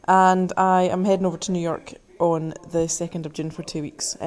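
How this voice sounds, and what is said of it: British accent. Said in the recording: “I'm from across the water, obviously. You can tell from the accent.”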